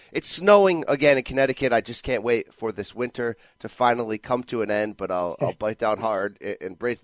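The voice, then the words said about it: Congested voice with coughing. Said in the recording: “You can probably hear the coughing in my voice. I'm fighting a cold.”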